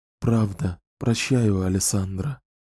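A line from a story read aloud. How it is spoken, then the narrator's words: Sincere whisper. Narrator (Russian): искренне прошептала Энн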